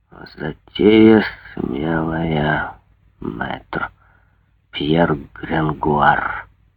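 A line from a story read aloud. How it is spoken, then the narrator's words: Muttering. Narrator (Russian): бормотал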